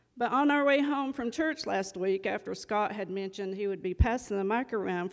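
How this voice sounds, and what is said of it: North Carolina accent. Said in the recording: “from North Carolina. Hence the accent, you'll recognize that.”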